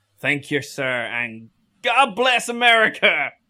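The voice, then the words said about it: Put-on American accent. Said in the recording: “did an American accent ... I'm a vocal chameleon”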